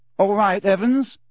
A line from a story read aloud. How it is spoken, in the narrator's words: said James, and the tone of his voice was suddenly pleasant, deeper, more mature